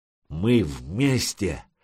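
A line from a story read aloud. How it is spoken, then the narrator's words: Warlike singing. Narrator (Russian): Санек даже пел что-то такое воинственное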